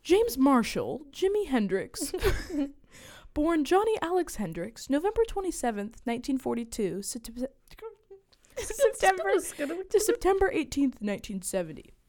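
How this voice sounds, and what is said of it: Documentary narrator voice. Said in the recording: “in my History Channel voice”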